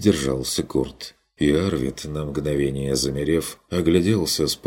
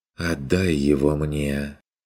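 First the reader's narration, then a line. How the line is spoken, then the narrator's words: Ingratiating girl's request. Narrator (Russian): Вкрадчиво попросила молчавшая до сих пор девица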